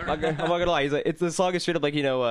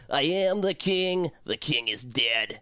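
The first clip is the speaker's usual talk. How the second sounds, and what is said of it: High, whiny singing impression. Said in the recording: “Dave's voice, like, he really started to get upper high and whiny... he gets really whiny... I do a pretty good impression.”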